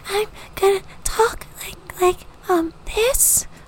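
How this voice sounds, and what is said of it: Silly character voice for ratfolk. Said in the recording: “Please tell me you're going to do a voice. ... Oh, I'm going to do a voice.”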